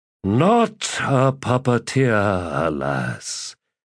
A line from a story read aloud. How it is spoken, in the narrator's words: cut in Madron with a heavy sigh